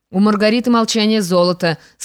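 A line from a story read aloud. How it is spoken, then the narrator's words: Laughing remark. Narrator (Russian): смеясь замечал герцог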